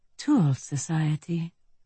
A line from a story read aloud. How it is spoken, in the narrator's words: I murmured